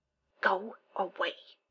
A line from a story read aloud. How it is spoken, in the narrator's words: Simmons hisses